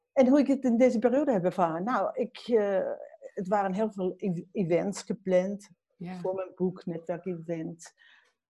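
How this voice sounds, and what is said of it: Austrian accent speaking Dutch. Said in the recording (Dutch): “ik ben Oostenrijkse. Dus als je accent hoort, dan weet je dat.”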